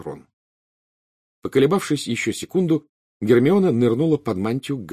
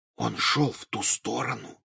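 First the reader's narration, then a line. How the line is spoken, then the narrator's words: Very quiet whisper. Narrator (Russian): как можно тише прошептал Гарри, чтобы не услышал Хагрид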